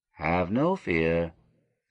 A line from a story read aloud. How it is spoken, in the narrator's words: answered as softly